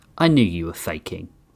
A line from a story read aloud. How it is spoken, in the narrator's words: Rath mumbled